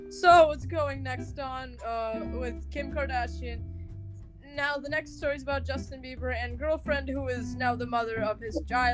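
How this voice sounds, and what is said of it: Imitates another person's voice. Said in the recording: “Wendy Williams is a real person, and this is my impression.”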